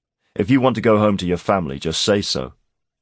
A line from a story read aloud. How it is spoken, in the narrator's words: Garrick snapped